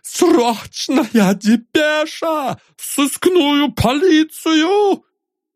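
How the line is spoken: Hoarse wheezing cry, young man. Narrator (Russian): Страшно захрипев, словно в легких сидел кинжал, юноша выкрикнул

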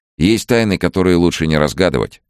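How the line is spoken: Cheerful. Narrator (Russian): весело сказал он

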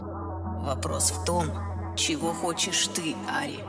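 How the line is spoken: Barely audible. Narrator (Russian): Еле слышно произнес он

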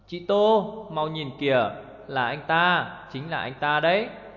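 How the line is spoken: Low, gleeful, secretive voice. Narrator (Vietnamese): Lục Lộ làm ra vẻ bí hiểm, hạ thấp giọng hớn hở bảo rằng

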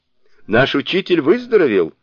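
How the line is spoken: Loud exclamation. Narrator (Russian): Громким голосом воскликнул Сунь-Укун

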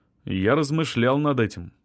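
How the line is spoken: Calm reply. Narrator (Russian): спокойно ответил Артём

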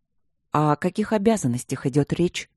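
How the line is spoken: Gentle question. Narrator (Russian): ласково спросила Ирина

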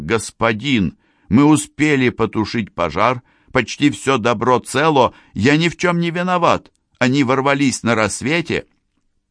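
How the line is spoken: Shouted. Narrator (Russian): закричал

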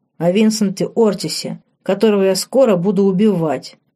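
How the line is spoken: Young man growling. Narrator (Russian): прорычал парень

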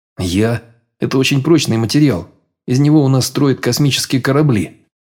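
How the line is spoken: Plain. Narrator (Russian): ответил

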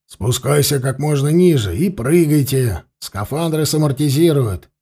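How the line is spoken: Barked command. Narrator (Russian): рявкнул Константин

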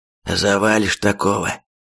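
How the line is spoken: Hoarse reply. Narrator (Russian): отчего-то сипло ответил Рейдер

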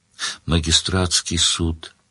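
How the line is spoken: Dejected prisoner's reply. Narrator (Russian): уныло ответил пленник

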